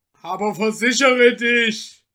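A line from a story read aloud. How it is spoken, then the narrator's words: Annoyed call. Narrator (German): rief Michel unmutig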